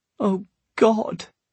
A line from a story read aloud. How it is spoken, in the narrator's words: Tatiana moaned